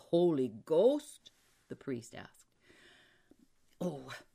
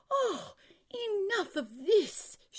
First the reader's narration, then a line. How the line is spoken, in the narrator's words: she cried